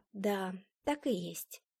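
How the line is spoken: Quiet confirmation. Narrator (Russian): тихо подтвердила я

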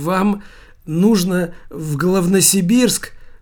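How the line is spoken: Old man's mumble. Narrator (Russian): промямлил старичок в железнодорожной фуражке

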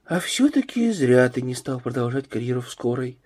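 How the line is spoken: Sighing. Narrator (Russian): вздохнула Елена

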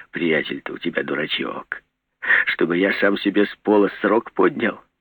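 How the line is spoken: Quiet, laughing. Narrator (Russian): Кирпич засмеялся мне прямо в лицо ... и тихо сказал

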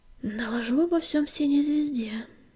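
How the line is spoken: Sighing. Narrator (Russian): вздохнул огнегриф

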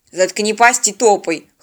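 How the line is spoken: Snorting gruff remark. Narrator (Russian): хмыкнул бандит

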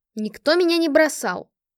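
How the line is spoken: Angry reply. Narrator (Russian): ответила сердито

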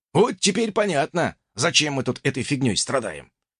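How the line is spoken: Amused snort. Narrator (Russian): хмыкнул собеседник

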